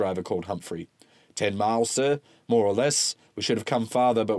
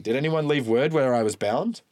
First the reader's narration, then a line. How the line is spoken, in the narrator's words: Marberton laughed